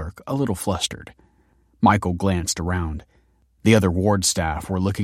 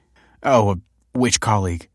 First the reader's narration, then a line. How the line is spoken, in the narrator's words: said Michael uneasily